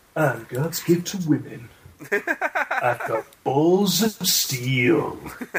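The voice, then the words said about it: Duke Nukem impression. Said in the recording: “Duke Nukem impression”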